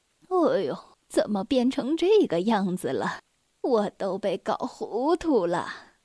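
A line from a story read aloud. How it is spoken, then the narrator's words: Muttering. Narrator (Chinese): 奶奶嘀咕道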